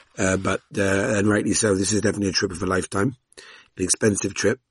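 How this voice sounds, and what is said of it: Hoarse, nearly lost voice. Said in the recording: “my voice is completely gone after tonight”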